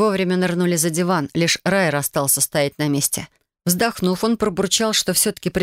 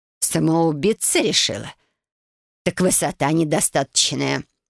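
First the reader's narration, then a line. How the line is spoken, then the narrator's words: Grumbling mutter. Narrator (Russian): пробурчала Лилиана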